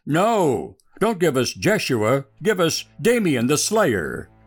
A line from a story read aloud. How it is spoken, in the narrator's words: They all cried